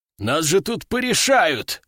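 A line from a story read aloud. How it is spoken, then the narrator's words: Roaring veteran. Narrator (Russian): взревел ветеран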